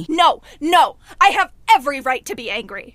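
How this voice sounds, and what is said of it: Angry yelling. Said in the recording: “stop yelling”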